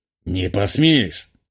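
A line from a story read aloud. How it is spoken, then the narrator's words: Scoffing grunt, man. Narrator (Russian): хмыкнул промышленник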